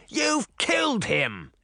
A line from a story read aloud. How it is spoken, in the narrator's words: he said angrily